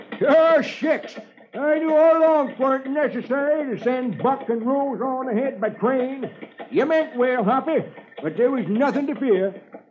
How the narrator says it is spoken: California, who's driving the wagon, hollers

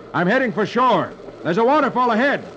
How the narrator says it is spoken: Flash shouts

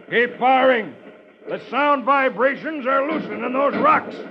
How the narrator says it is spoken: he shouts

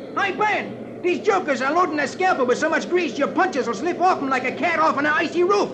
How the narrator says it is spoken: Spider yells

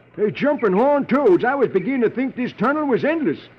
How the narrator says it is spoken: California exclaims

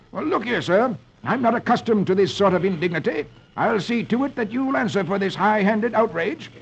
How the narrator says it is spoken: Squire Boggs exclaims

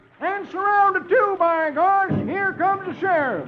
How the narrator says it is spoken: Doleful shouts

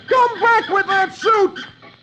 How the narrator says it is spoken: Then he yells

